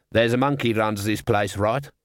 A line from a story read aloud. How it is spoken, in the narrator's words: he said